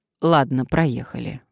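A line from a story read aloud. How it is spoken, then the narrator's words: Sighing. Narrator (Russian): вздохнула Надежда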